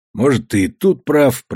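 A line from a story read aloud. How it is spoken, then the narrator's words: Grumbling old man. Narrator (Russian): проворчал старик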